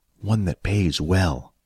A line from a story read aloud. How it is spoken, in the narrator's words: He whispered into Billy's ear